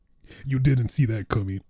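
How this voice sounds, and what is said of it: Imitates another person's voice. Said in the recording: “That's my impression of Pietro.”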